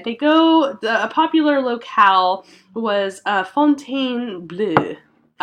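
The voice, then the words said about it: Fake French accent. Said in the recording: “My phony French accent that works sometimes.”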